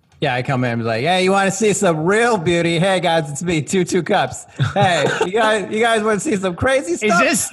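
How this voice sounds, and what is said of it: Character voice resembling Dennis Miller. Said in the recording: “doing an impression of Dennis Miller on purpose?”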